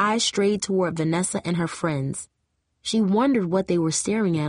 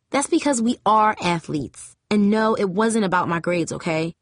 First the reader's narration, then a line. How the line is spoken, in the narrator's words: Jamie snapped